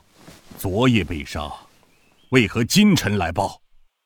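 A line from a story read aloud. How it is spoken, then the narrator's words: Deep, grave question. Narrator (Chinese): 沉声问道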